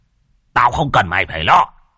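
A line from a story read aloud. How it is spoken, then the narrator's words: Furious old man shouting. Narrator (Vietnamese): lão điên tiết, lão quát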